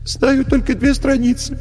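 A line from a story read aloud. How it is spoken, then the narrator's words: Tearful answer. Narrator (Russian): бедный Алеша сквозь слезы отвечал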